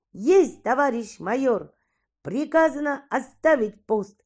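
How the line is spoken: Ringing, deft. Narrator (Russian): сказал он это так звонко и так ловко

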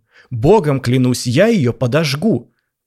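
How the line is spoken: Shouted. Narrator (Russian): закричал писатель

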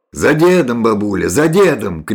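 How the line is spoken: Shout. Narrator (Russian): крикнул Алексей

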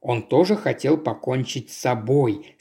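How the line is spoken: Plain. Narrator (Russian): сказал Линч

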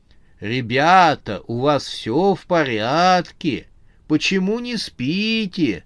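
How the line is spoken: Grandmother asking in a creaky voice. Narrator (Russian): скрипучим голосом поинтересовалась бабушка

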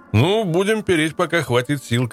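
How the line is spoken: Shout. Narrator (Russian): крикнул мне Алексей

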